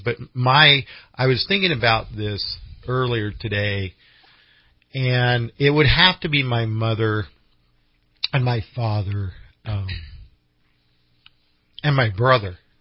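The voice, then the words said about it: Emotional, choked-up voice. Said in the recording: “I'm getting a little bit emotional.”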